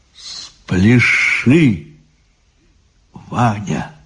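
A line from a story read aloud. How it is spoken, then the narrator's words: Quiet, tender. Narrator (Russian): тихо и ласково сказала самая умная голова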